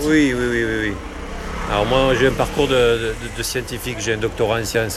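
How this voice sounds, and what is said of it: Southern French accent. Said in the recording (French): “l'accent que j'ai ... l'accent du Sud”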